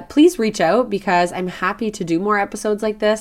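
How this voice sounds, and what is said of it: Scratchy voice. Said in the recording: “my voice is very scratchy today”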